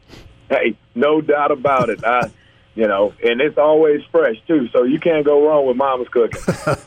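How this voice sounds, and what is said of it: New Orleans accent. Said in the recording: “he recognized your New Orleans accent”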